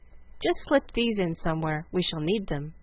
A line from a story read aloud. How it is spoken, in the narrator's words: Frank saying calmly